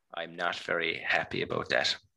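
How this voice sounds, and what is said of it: Gentle, kindly tone of voice. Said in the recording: “say it in a kindly voice ... When you speak in a more kindly voice”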